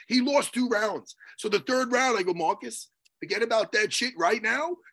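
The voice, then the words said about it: Strained, worn-out hoarse voice. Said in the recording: “This is why my voice is done.”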